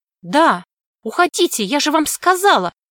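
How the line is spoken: Nervous girl's cry. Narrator (Russian): выкрикнула нервно девочка

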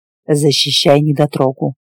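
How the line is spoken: Grumbled. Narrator (Russian): буркнул Буч

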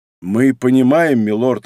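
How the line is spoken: Plain. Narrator (Russian): ответил Уорку

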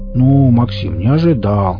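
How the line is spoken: Offended drawl. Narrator (Russian): обиженно протянул Энд

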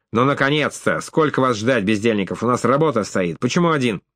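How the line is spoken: Doorman barking loudly. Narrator (Russian): швейцар гаркнувший

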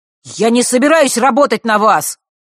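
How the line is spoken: Angry shout. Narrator (Russian): зло выкрикнул он

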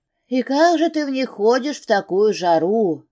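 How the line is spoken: Plain. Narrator (Russian): спросила

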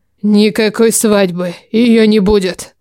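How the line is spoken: Growl. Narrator (Russian): Он прорычал

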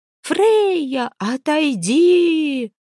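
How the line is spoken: Shrieking. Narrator (Russian): завизжала Хильд

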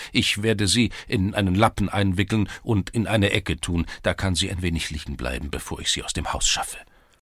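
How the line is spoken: Stammered. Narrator (German): stammelte er

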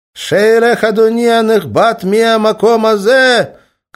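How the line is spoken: Shouted. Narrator (Russian): крикнул Жермензон

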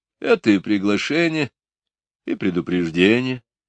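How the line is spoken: Calm. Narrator (Russian): спокойно

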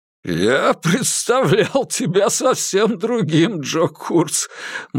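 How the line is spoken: Child laughing loudly. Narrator (Russian): малыш Док расхохотался

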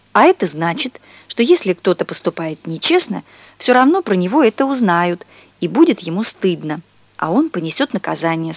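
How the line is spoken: Plain. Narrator (Russian): сказала мама

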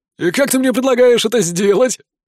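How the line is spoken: Tree-creature's skeptical snort. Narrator (Russian): хмыкнул древень

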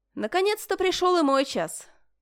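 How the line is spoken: Familiar voice close behind. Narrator (Russian): Знакомый голос прозвучал сзади, почти над самым ухом

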